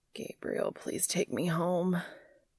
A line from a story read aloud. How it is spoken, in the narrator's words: groans